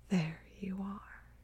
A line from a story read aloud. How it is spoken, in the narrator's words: mutters, so quiet